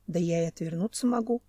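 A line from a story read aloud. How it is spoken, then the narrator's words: Muttered. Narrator (Russian): пробормотал Семен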